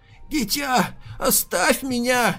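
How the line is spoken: Hoarse old man. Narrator (Russian): прохрипел старик

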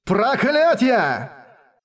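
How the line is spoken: Desperate shout. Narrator (Russian): в отчаянии закричал

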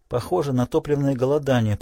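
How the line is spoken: Whisper. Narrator (Russian): прошептала она

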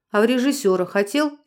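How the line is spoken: Plain. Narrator (Russian): спросил Дронго

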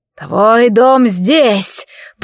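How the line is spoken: Man hissing. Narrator (Russian): прошипел мужчина

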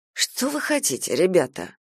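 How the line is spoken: Sighing, mocking or sad. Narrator (Russian): вздохнул Харя, то ли ерничая, то ли с глубоко запрятанными сожалением и грустью

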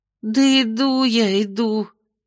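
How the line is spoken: Sigh. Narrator (Russian): вздохнула Майя

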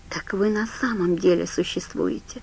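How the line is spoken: Soft. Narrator (Russian): сказал он мягко

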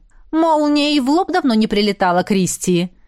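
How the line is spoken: Snide inquiry. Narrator (Russian): Полюбопытствовал ехидно мой телохранитель

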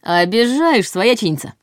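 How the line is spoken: Puffing, snorting. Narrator (Russian): пыхтя от тяжелых пакетов, фыркнул Ваня

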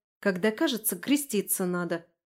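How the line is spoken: Snapping. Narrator (Russian): огрызнулась я

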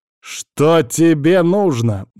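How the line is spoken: Growl. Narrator (Russian): наконец рыкнул я

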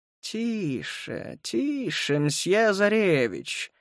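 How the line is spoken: Hissed with a smile. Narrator (Russian): с улыбкой прошипел Мотя

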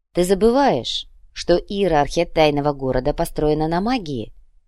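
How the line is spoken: Soft. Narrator (Russian): мягко произнес Берислав

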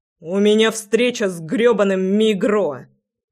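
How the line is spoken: Said through clenched teeth. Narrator (Russian): процедил я

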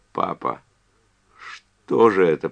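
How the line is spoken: Moaning. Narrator (Russian): простонала она

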